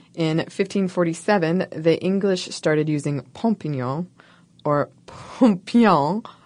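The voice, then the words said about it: Mock French accent on words. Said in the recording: “I'm saying this with a French accent that the English certainly didn't use”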